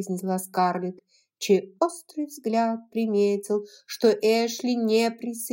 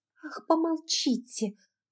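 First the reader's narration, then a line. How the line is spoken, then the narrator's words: Hissed. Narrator (Russian): прошипела Скарлетт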